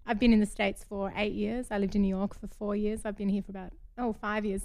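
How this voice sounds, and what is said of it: Fading Australian accent. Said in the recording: “you can tell from my crazy accent. I'm from Australia ... although my fading accent.”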